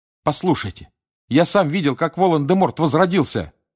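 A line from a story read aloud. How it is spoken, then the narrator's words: Shouting. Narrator (Russian): крикнул Гарри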